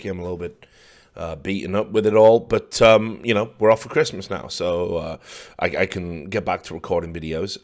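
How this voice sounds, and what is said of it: Slightly croaky tired voice. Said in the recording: “you can probably still hear, you know, my voice is a little bit croaky”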